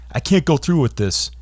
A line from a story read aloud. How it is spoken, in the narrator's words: Andrews yelled out